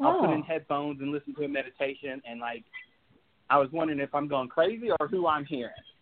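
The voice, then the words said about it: Slight Southern American accent. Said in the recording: “Sounds like you got a little southern accent.”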